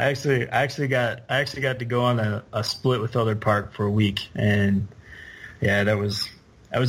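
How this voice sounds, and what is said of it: Usual voice. Nothing is said of it.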